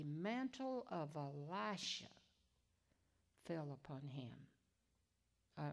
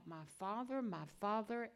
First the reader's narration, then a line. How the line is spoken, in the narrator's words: he cried out